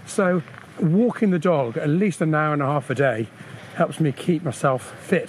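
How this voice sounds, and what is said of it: Slightly out of breath. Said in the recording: “At the moment we're walking uphill, which is why I'm sounding slightly out of breath.”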